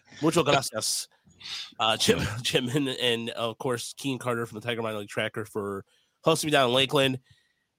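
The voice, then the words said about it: Nasal, congested voice. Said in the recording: “I got a sinus infection. Huzzah. So that's why I sounded nasally.”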